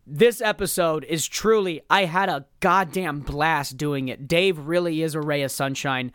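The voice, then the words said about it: Hoarse, worn-out voice. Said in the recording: “my voice is so shot.”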